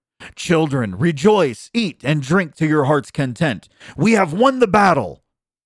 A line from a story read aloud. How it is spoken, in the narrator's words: the king and queen cried